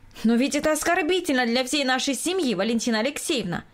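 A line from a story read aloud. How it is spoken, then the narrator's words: Indignant. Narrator (Russian): возмущенно произнесла хозяйка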